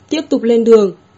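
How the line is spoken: Loud. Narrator (Vietnamese): Trử Tương Long đứng dậy lớn tiếng nói

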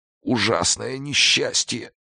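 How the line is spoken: Barely audible hoarse rasp. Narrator (Russian): еле слышно просипел режиссер

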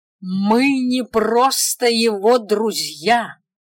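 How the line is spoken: Loud, lofty declaration. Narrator (Russian): громко и возвышенно бросила я

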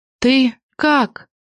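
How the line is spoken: Choked, holding back tears. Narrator (Russian): Слова застряли в горле, стараясь не разрыдаться

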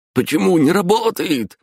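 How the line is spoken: Shrill squeal. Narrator (Russian): взвизгнул Куликов

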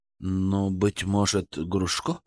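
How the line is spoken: Uncertain suggestion. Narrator (Russian): Неуверенно предложил Ценев

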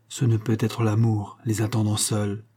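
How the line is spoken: Murmured. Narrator (French): murmura Shirley

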